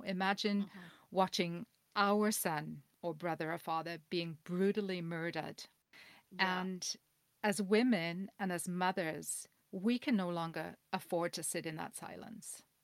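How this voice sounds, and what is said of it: Emotional, horrified, shaken voice. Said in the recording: “I'm horrified and I just feel it on such a visceral level right now that you can probably hear it in my voice”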